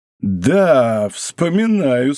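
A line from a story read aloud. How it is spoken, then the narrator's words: Mocking tone. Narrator (Russian): сказал насмешливо офицер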